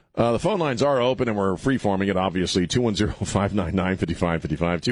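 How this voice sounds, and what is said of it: Usual voice. Nothing is said of it.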